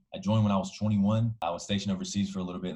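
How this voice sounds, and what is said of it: Alabama Southern accent. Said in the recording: “I'm originally from Alabama, if you can't already tell from the accent.”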